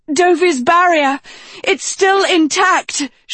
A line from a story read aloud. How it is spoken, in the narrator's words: she called out